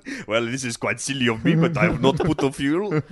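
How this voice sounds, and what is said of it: Put-on foreign accent. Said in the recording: “I'm afraid that accent was too good.”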